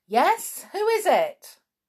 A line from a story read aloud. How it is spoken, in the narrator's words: He woke up with a jump and yelled out